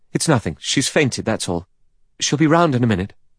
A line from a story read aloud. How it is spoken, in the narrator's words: He said quickly